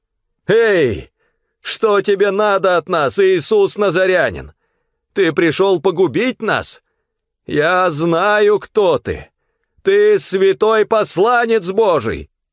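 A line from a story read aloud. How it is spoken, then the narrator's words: Loud possessed shout. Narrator (Russian): человек, одержимый духом нечистого беса, громким голосом закричал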